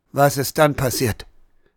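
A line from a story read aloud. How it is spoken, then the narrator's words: Quiet question. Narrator (German): fragte Herr Bauer leise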